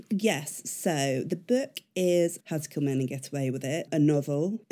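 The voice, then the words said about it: Sniffly voice with a cold. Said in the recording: “I've got a cold today, so I'm going to be sniffing my way through this”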